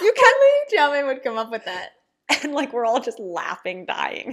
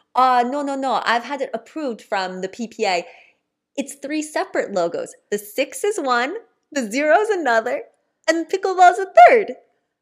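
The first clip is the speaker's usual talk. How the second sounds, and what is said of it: Weak put-on accent, fading out. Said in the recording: “Sorry for my accent, not very ... you like started with it, then like realized it wasn't very good and sort of undercommitted the rest of the phrase.”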